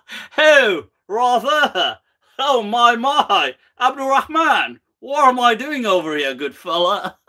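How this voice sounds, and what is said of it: Put-on thick British accent. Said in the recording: “in a thick British accent”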